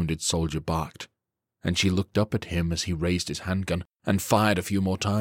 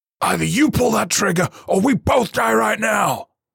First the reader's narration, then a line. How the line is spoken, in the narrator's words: he yelled